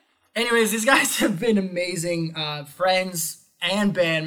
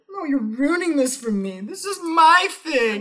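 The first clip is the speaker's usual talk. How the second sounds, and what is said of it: High whiny little girl voice. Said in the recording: “There's that little girl voice again.”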